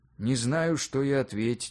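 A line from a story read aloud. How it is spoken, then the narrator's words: Sigh. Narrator (Russian): вздохнул Юрий Иванович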